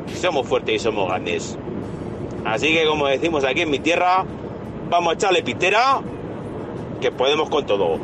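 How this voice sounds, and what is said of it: Aragonese regional Spanish accent. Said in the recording (Spanish): “Qué acento, ¿eh? Qué acento mañico”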